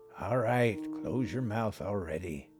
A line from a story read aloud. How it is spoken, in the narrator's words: Grandpa grumbled